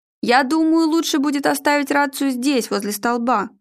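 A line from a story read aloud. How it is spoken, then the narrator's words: Shouted. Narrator (Russian): крикнул Арнольд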